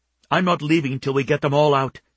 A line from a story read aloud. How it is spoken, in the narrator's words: she said fiercely